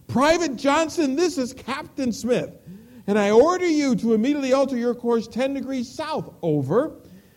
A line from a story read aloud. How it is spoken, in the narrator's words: Appalled at the audacity of the message, the captain shouted back over the radio